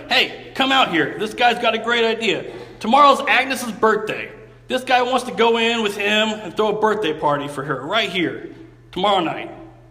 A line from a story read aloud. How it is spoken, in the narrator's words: Calling to his wife, who did the cooking in the back room, he shouted